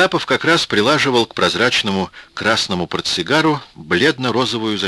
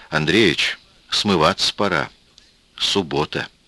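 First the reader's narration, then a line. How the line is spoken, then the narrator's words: Quiet suggestion. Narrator (Russian): тихо предложил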